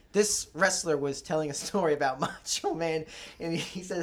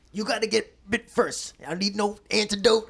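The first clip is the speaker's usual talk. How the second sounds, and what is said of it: Imitates another person's voice. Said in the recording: “I'll do my best impersonation.”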